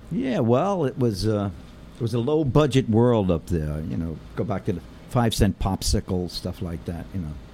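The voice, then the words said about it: Genuine New York accent. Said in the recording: “You definitely have the genuine New York accent ... that beautiful accent ... nice accent ... it's definitely, it's unmistakable”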